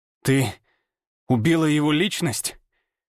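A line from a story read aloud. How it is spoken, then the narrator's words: Forced through clenched teeth. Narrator (Russian): Выдавил я сквозь сжатые зубы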